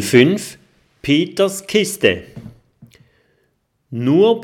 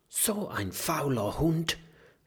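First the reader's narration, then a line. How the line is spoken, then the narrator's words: Whisper. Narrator (German): flüstert Mathilda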